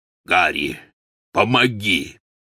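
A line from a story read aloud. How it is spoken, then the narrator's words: Hoarse call. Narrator (Russian): хрипло позвал Гаррит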